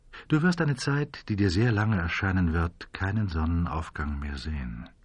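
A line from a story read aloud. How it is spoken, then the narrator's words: Quiet man's voice. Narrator (German): sagte der Mann in Schwarz leise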